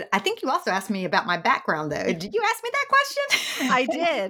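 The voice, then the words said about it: Southern American accent. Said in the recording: “you can probably hear, as can your listeners, that this is a Southern accent”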